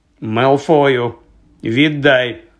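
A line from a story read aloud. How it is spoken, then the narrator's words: Stern command. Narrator (Ukrainian): суворо звелів Персі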